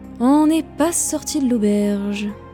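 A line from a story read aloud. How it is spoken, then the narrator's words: Sighing. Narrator (French): soupirèrent-ils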